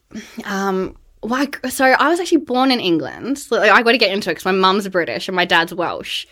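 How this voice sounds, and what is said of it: Australian accent. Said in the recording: “Is it possible at all for an Australian to lose that accent?”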